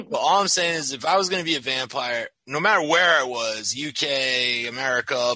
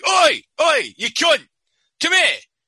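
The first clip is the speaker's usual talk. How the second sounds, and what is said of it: Put-on Cockney accent. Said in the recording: “I'm going to have a Cockney accent.”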